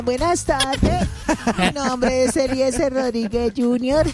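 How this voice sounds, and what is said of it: Child's voice. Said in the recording (Spanish): “voz de niño”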